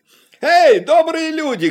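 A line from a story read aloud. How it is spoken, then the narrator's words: Shouted. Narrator (Russian): крикнул он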